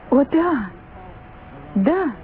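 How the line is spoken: Twins exclaiming together. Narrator (Russian): воскликнули близнецы

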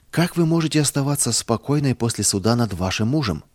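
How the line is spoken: Plain. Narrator (Russian): спросил он

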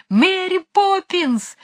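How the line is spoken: Group shouting at full volume. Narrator (Russian): закричали они изо всех сил

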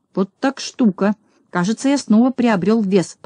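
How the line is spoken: Muttered. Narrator (Russian): пробормотал Знайка

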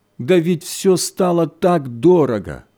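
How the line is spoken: Moaning. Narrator (Russian): Хозяйка застонала

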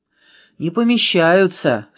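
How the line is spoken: Dejected sigh. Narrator (Russian): сокрушенно вздохнул Нуль

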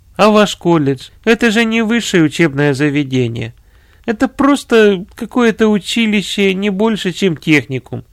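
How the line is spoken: Laughing. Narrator (Russian): смеясь, сказал комиссар

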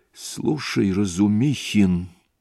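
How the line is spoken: Quiet, calm. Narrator (Russian): начал тихо и, по-видимому, совершенно спокойно Раскольников

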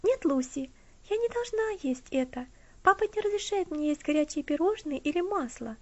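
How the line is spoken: Carefree interrupting girl. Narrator (Russian): прервала ее Элси тем же беззаботным тоном, которым говорила до этого

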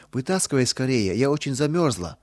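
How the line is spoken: Trembling voice. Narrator (Russian): ответила Нина дрожащим голосом

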